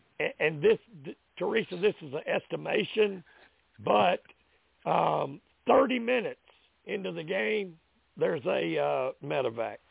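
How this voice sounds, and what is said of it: Voice giving out, weakening. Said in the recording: “my voice is giving away. It started out real good, real strong.”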